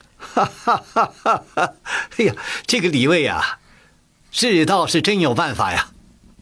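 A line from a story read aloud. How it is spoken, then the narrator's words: Loud laughter. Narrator (Chinese): 乾隆大笑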